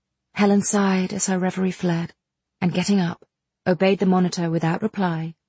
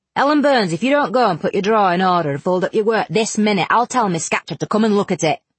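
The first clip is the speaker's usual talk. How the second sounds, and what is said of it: Strong Cumberland accent. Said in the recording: “exclaiming in a strong Cumberland accent”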